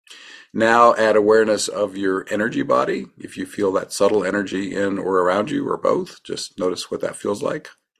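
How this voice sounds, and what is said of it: Slightly scratchy voice. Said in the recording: “I'm a little bit under the weather. My voice is a little bit scratchy.”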